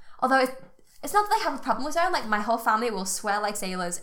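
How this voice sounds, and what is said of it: Mild Scouse accent. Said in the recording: “to people who aren't Scouse, I sound Scouse... to Scousers, I sound quite posh... I don't sound as broad as other people”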